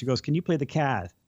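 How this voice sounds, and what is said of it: Boston accent imitation. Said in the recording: “I did really definitely hear the Boston accent ... I got to hear a real Boston accent, or is it Medford,”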